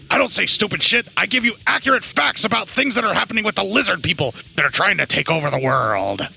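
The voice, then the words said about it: Bad Alex Jones impression. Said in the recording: “worst Alex Jones impression I've probably done in forever”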